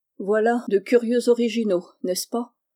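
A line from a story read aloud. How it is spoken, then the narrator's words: Casual tone. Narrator (French): dit-il d'un ton dégagé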